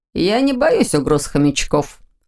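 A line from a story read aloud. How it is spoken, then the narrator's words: Short laugh. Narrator (Russian): хохотнул Ваня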